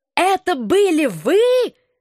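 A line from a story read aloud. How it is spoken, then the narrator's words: Howling while lunging. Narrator (Russian): взвыл он, кидаясь ко мне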